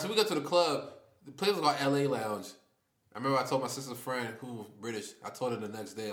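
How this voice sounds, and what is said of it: American accent. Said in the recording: “We just have an accent, American accent.”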